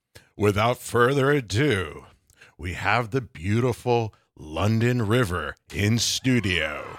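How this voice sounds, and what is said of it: Mock radio announcer voice. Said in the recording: “That's my shot at radio voice.”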